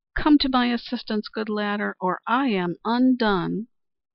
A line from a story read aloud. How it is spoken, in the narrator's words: As Teenchy Duck was falling, she cried